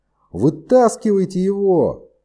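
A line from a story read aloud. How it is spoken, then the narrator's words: Shouting at full strength. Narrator (Russian): прокричал изо всех сил Кэп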